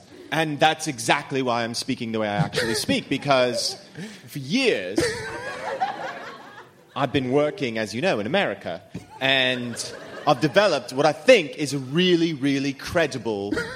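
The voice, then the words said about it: Put-on fake voice. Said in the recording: “doing a fake voice? ... This sounds like a put-upon voice.”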